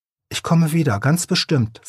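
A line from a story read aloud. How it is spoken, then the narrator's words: Plain. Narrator (German): sagte der Igel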